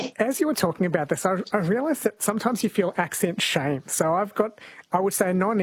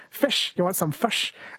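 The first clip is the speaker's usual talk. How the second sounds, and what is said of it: Exaggerated put-on Kiwi accent. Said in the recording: “Like the Kiwi way of saying it. ... I'm hamming it up a little bit”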